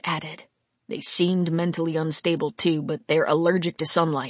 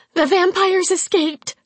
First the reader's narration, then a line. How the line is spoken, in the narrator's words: Peggy blurted